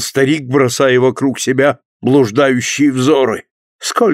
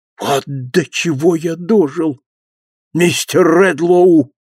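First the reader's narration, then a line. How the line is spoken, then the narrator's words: Old man exclaiming, sighing. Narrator (Russian): воскликнул старик с глубоким вздохом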